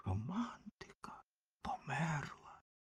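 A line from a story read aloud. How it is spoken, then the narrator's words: Whisper. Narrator (Ukrainian): вогняний фонтан шепотів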